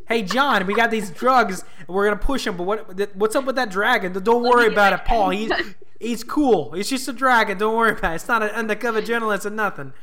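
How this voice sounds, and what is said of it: Weak put-on New Jersey accent. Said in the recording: “That's my New Jersey accent. I'm not very good at it.”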